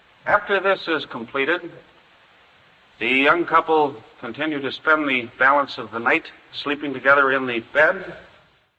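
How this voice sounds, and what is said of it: Mid-Atlantic accent. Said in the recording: “a lawyer describing a love scene in a mid-Atlantic accent”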